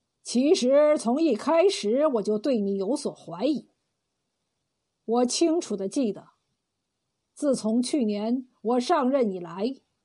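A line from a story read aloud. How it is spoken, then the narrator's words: Sighing. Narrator (Chinese): 刘龙叹口气道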